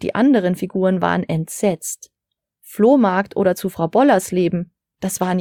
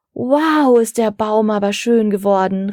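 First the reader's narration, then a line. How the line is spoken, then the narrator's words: Girl calling out. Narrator (German): rief eine Mädchenstimme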